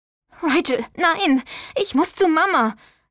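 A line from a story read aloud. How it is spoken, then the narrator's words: Gasping. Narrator (German): keuchte sie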